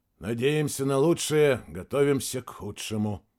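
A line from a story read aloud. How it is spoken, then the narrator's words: Gloomy. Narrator (Russian): мрачно проговорил Сергей Макарович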